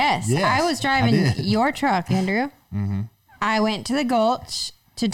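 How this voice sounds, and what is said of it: Usual voice. Nothing is said of it.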